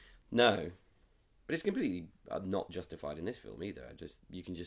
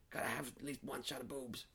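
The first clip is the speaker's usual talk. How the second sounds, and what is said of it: Imitates a film producer's voice. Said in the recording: “Is that your impression of one of the Weinsteins? ... some unnamed film producer.”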